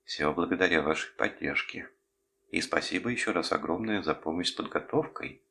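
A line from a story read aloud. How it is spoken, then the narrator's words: Timid reply. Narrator (Russian): как всегда робко ответила Юдзу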